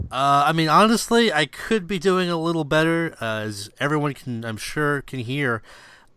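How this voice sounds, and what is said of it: Congested, very nasal voice. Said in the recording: “I sound like a mess ... the coughing and the sniffling and the times 10 factor nasal voice that I've got going on. It's worse than usual.”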